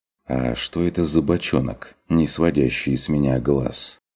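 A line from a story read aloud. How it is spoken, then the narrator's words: Whispered question. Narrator (Russian): спросил Курт шепотом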